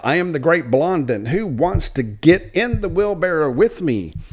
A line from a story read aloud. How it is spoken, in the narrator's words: He cries out